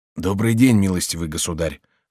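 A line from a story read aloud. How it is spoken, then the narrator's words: Hoarse voice. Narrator (Russian): сказал он сиплым голосом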